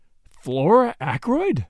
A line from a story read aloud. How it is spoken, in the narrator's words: exclaimed in surprise